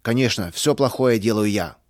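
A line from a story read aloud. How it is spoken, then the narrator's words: Angry repetition. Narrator (Russian): сердито повторил Густав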